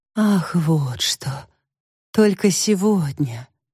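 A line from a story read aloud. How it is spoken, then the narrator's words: Relieved sigh. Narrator (Russian): облегченно вздохнула мама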